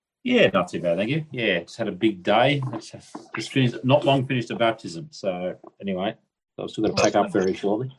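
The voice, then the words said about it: Australian accent. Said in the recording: “It's the Australian accent.”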